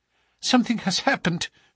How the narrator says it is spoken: she cried

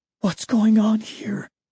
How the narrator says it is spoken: whispered to myself

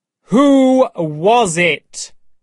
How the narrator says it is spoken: asked again in a terrible voice

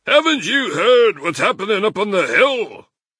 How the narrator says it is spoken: Badger said excitedly

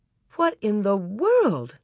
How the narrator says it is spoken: Ma exclaimed

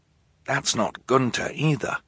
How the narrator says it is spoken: Klaus whispered

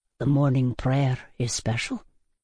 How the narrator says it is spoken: he murmured

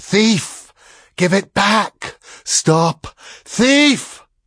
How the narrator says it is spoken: One of them wailed and whispered, the other buzzed like a fat and angry blue bottle at a window pane, but the voices said, as one person

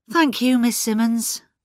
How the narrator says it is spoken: said Craddock with a sigh

